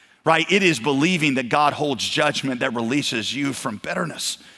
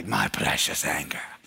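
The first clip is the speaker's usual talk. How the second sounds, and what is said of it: Imitation of a Lord of the Rings character. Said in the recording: “putting on that ring in Lord of the Rings ... Did y'all like that imitation? That was pretty good, wasn't it?”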